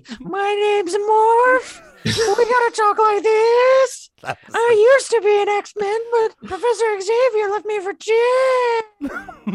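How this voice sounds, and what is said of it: High-pitched squeaky character voice. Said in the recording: “your impression ... It was just a high-pitched squeak.”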